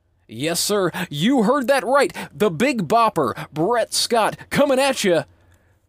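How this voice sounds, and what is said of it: Over-the-top radio announcer voice. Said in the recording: “this ridiculous radio announcer voice”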